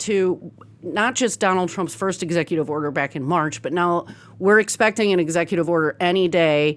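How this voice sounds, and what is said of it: Usual voice. Nothing is said of it.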